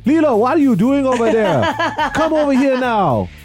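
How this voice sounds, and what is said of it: Imitated heavy Hawaiian accent. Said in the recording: “she's got the full-blown, like, Hawaiian accent going on”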